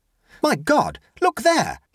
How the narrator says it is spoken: he cried

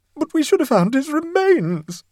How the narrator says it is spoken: sobbed Mrs

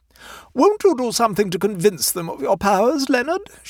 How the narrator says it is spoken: she pleaded

